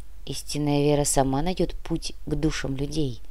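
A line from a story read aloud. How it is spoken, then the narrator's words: Quiet answer. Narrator (Russian): тихо ответил митрополит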